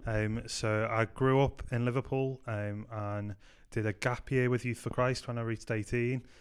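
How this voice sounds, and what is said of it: Scouse Liverpool accent. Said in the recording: “I'm originally from Liverpool. I hope you can tell that by my Scouse accent.”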